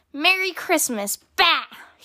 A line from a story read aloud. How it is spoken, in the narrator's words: he shouted back